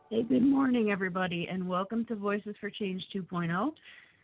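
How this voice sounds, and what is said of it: Hoarse, strained voice. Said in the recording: “I'm already losing my voice.”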